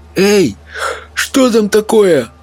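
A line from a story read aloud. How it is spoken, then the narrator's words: Sleepy call from the shore. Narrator (Russian): Сонно окликнул кто-то на берегу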